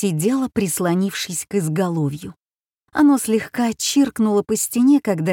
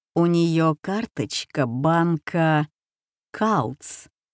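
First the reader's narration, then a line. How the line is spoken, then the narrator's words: Slow, savoring. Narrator (Russian): медленно сказал он, словно смакуя роскошь, заключенную в последнем слове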